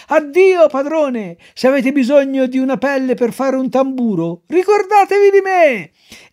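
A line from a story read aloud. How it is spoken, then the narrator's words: Cheerful shout, moving away. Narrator (Italian): nuotando allegramente, allontanandosi dalla spiaggia, gridava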